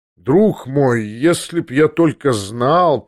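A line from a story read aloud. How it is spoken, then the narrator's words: Drawling. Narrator (Russian): протянул Версилов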